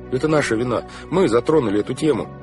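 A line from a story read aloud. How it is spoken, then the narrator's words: Hurried. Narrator (Russian): торопливо сказал Клаус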